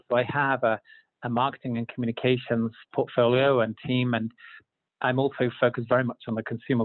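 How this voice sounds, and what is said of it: Non-American, London-born speaker's accent. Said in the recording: “I'm not from Utah, as my accent may uh, indicate. Uh, I was born in London”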